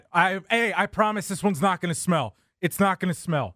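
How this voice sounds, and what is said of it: Good impression of the co-host. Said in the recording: “That's a good impression ... Of me.”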